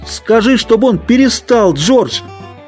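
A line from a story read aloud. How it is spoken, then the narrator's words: Shouted. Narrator (Russian): Он крикнул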